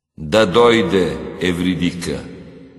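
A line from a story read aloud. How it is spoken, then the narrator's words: Commanding. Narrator (Bulgarian): Хадес заповядал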